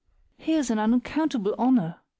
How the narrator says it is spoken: cried Elizabeth at last

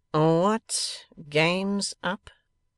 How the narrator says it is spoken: demanded Fledgeby, as slowly as before, and more sternly

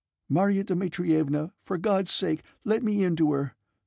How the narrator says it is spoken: she pleaded

